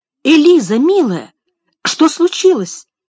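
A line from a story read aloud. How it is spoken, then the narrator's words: Exclamation. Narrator (Russian): воскликнула миссис Шелби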